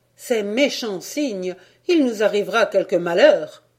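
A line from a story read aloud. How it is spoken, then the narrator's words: Mother's fearful exclamation. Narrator (French): s'écria ma mère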